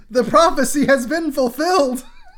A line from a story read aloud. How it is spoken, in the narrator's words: Private Ryan screams